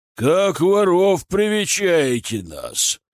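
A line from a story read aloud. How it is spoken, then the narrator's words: Menacing roar. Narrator (Russian): взревел грозный голос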